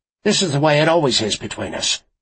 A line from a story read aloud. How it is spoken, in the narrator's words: he snapped